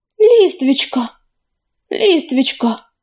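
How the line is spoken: Breathless exhale. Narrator (Russian): выдохнул он

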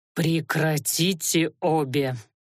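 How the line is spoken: Low voice, through teeth. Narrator (Russian): В полголоса процедил Анхайлик

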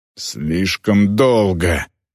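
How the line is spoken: Growl. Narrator (Russian): прорычал Морт

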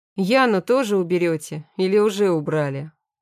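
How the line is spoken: Sighing. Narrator (Russian): Борис вздохнул

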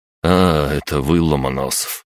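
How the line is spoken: Sighing. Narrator (Russian): вздохнул Виктор Викторович

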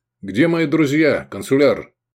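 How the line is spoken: Snorting. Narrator (Russian): Гай Негрин хмыкнул

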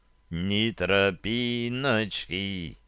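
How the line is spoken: Elated drawl. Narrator (Russian): Вновь протянул я, ловя волну успеха

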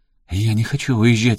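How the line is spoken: Sob. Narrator (Russian): всхлипнула Саманта

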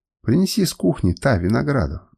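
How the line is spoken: Plain. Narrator (Russian): сказал ей

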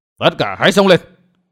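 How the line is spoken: Commanding shout. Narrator (Vietnamese): Lão hộ pháp quát

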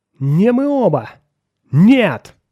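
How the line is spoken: Screaming. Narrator (Russian): закричал Мэррик

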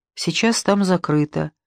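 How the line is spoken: Soft reply. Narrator (Russian): мягко ответила медсестра

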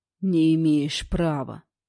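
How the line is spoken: Hissed through curled lips. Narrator (Russian): процедил, скривив губы

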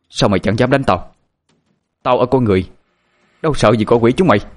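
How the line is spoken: Loud shout. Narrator (Vietnamese): Phương quát lớn

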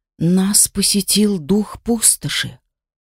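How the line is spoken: Barely audible whisper. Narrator (Russian): Прошептала еле слышно

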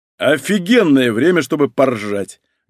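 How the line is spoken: Bellowed. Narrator (Russian): гаркнул Малинин

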